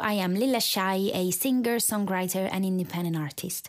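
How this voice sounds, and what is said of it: Italian-accented English. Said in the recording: “you can probably tell by my accent that English is not my first language ... being Italian, which is where I'm from”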